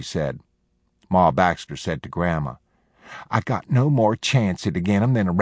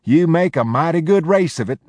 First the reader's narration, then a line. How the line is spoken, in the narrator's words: she said, but she had to laugh